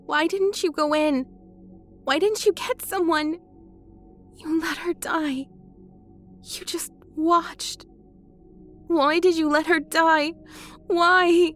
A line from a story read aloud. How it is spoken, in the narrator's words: she asked, choking, becoming frantic